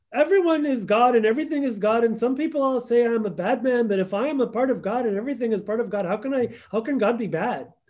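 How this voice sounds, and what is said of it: Put-on Indian accent, self-described bad. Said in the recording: “I'm sorry if I'm doing a bad Indian accent.”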